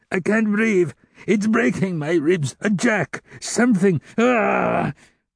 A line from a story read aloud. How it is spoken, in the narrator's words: Father Fauchelevent gasped and screamed